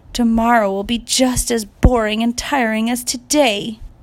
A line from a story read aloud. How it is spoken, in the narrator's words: whined